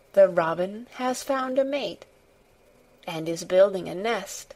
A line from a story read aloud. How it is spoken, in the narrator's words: very softly and slowly indeed